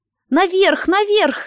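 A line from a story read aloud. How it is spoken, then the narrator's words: Shout. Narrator (Russian): закричал Тедди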